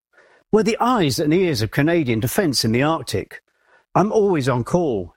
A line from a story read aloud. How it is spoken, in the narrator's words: she says